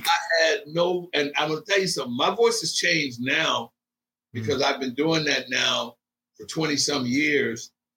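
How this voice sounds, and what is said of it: Raspy, rough speaking voice. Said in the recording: “that little voice is gone. It's turned very raspy”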